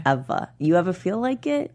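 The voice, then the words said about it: Put-on New York accent. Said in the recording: “This is my New York accent.”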